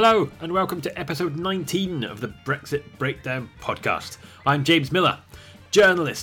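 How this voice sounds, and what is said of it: Usual voice. Nothing is said of it.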